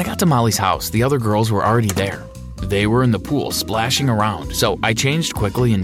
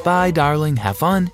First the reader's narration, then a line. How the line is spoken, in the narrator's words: said Mom